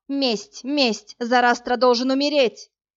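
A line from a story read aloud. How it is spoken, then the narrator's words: Near shout, queen. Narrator (Russian): царица ночи почти прокричала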